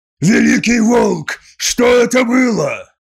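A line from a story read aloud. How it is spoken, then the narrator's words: Roaring. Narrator (Russian): взревел Скарсен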